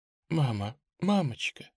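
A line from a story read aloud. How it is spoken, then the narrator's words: Barely audible moan. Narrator (Russian): едва слышно стонет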